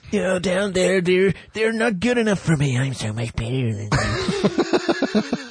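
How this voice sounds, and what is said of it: Impression of Luke Rattigan. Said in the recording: “Spot on impersonation ... little unloved Luke Rattigan”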